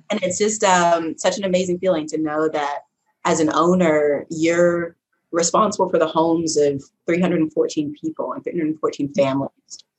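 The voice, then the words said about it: Choked-up, emotional voice. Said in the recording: “sorry, I'm getting a little choked up”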